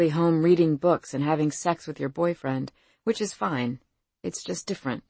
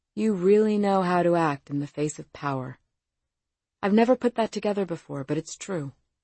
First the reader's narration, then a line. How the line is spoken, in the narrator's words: Coldly, Zee added